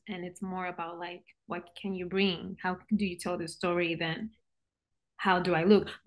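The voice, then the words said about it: Puerto Rican Spanish accent. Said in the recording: “coming from Puerto Rico. And again, you could tell by your accent ... I have an accent.”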